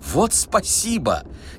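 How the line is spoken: Sudden exclamation. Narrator (Russian): неожиданно воскликнул Гаргантюа

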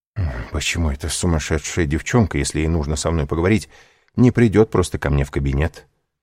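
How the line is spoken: Muttering. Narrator (Russian): бормотал Данглар

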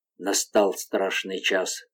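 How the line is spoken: Whisper. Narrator (Russian): прошептал Гастон

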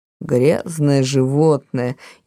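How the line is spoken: Grumbling mutter. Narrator (Russian): еще раз буркнула она

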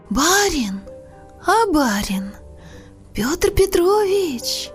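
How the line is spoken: Weak, slow, hoarse rustle. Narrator (Russian): Послышался мне голос, слабый, медленный и сиплый, как шелест болотной осоки

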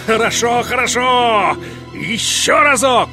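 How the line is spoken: Shout. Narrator (Russian): Великий князь закричал

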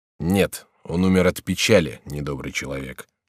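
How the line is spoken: Dry objection. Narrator (Russian): возразил сухо король

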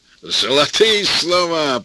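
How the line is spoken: Booming voice. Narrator (Russian): прогудел Борис

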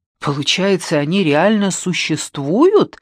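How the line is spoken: Exclaiming. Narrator (Russian): воскликнул я

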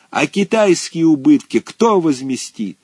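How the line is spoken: Loud shout. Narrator (Russian): Как закричал тут лялька

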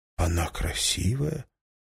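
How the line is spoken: Whisper. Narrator (Russian): прошептал Уинстон

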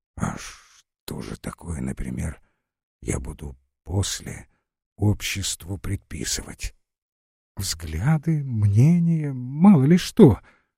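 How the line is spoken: Barely audible hiss. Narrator (Russian): едва мог прошипеть

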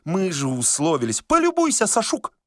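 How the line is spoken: Shouted. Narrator (Russian): закричала Варвара

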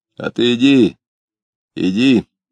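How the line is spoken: Hoarse male voice. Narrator (Russian): ответил ему хриплый мужской голос

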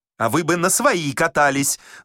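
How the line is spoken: Hot-tempered shouting. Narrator (Russian): запальчиво кричал шофер

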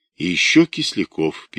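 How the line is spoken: Sad. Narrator (Russian): печально сообщил Агеев

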